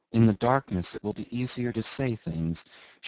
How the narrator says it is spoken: she whispered to herself

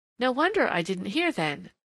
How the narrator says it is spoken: said the girl, with a laugh in which it would have taken an acuter ear than McLean's to detect the secret clamor of chagrin and humiliation

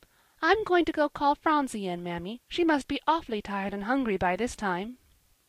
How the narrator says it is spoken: Polly said merrily

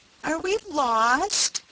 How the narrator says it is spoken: quavered Rob, in despair

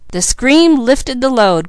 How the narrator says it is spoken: cried Mickey

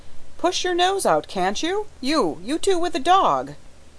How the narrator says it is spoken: another voice cried

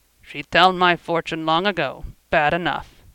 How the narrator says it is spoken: grunted

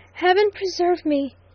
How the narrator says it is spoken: gasped Stanton

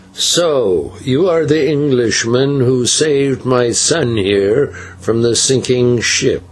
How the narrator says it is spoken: he said in a slow, powerful voice

